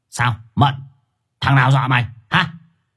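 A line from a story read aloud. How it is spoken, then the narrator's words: Aggressive growl. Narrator (Vietnamese): Thằng Quý hùng hổ gằn giọng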